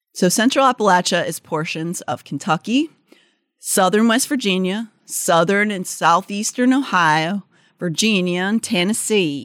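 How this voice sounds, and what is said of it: Put-on Southern Appalachian drawl. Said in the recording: “I like your drawl, honey. ... I don't know if it's correct for that area. ... You know, you're trying.”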